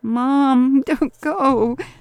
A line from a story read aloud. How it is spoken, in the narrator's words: sobbed Mario